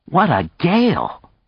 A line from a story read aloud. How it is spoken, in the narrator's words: Phyllis exclaimed in his ear